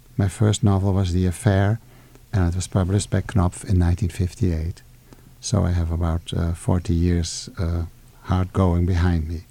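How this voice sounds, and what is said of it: Dutch accent. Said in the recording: “My name and the accent I have, and I'm afraid is audible on the microphone, are Dutch”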